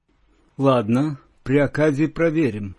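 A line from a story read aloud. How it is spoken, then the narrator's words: Grim joke. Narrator (Russian): мрачно пошутил Стас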